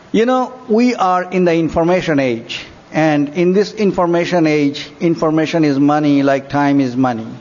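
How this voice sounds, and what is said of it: Thick accent, slow careful speech. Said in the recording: “I have a thick accent, so I will try to be a little slow”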